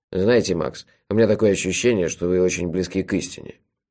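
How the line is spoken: Good-natured grumble. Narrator (Russian): добродушно проворчал трактирщик

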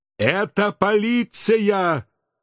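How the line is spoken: Yelling over gunfire. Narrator (Russian): Пытаясь перекричать выстрелы, заорал я

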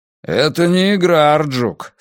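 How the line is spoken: Gloomy. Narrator (Russian): сказал Брус, мрачно

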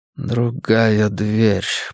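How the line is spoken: Mumbling. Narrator (Russian): бормотал он

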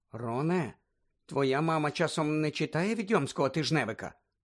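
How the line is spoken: Quiet question. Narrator (Ukrainian): тихо спитала Герміона

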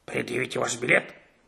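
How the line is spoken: Angry bark. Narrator (Russian): сердито рявкнул он

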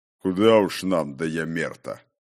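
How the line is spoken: Mocking bass voice. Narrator (Russian): Издевательски пробасил кто-то

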